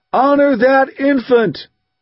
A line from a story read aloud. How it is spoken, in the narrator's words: Somebody shouted out